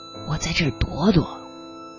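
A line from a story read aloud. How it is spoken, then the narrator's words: Low voice. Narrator (Chinese): 他也压低声音回我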